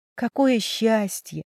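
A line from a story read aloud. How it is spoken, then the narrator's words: Sighing. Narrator (Russian): Матвей вздохнул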